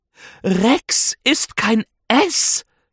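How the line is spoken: Woman hissing. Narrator (German): zischt sie

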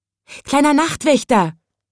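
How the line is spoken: Called out. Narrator (German): rief es

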